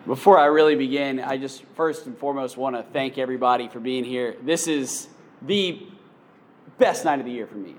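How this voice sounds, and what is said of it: Tired voice. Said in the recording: “My voice is tired already.”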